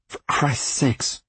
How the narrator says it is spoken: Carver muttered

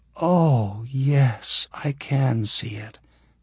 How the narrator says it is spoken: she breathed

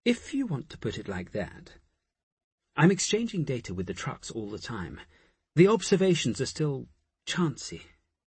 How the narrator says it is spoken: said hesitantly

